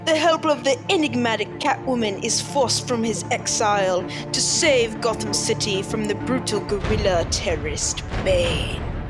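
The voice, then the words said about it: London accent. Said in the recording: “your London accent”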